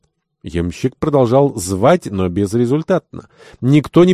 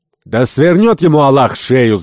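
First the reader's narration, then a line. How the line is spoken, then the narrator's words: Shouting. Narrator (Russian): закричал Керабан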